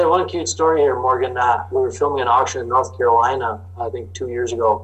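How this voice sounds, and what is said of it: Usual voice. Nothing is said of it.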